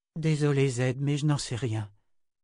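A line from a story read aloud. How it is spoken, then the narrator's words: Sighed. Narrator (French): soupira Nietzsche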